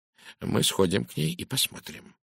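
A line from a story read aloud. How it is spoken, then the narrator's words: Quiet. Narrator (Russian): тихо промолвил он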